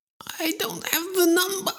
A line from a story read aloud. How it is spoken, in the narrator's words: The man screamed as Eva twisted a little more